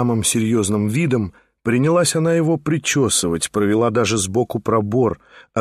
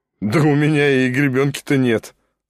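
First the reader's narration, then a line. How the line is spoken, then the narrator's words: Laughing. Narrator (Russian): засмеялся Шатов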